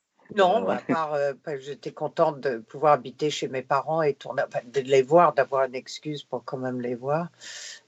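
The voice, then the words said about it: French with an English-speaker's accent. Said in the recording (French): “à cause de mon accent ... je suis anglophone et pas francophone”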